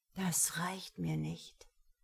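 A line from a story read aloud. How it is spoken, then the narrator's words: Murmured. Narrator (German): murmelte er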